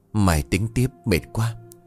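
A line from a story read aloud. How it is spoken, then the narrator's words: Sighing, muttering to himself. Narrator (Vietnamese): Hưng thở dài tự nhủ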